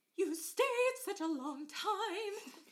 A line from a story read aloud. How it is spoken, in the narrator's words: she cried, gaping, as she had been sleeping